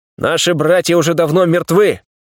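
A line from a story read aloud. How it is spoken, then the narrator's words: Loud shout to crowd. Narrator (Russian): громко выкрикнул я, обращаясь ко всем бойцам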